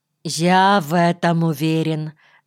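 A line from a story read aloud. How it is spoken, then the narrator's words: Calm. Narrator (Russian): спокойно ответил Млеткин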